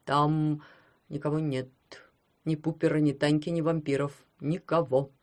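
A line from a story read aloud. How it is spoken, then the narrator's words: Trembling reply. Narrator (Russian): дрожащим голосом отвечал дядя Герман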